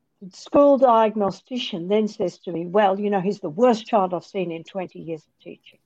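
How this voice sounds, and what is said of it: Australian accent. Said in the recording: “you've got this accent ... I'm Australian”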